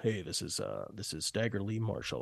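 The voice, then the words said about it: Imitates another person's super deep voice. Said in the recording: “he had this super deep voice.”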